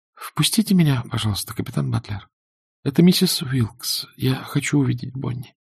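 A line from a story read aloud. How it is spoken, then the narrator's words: Quiet, summoning courage. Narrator (Russian): призвав на помощь все свое мужество, тихо сказала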